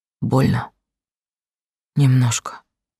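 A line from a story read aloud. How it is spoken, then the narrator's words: Barely audible whisper. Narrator (Russian): едва слышным шепотом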